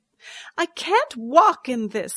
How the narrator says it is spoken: I exclaimed

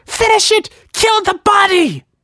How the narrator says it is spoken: Grace screamed

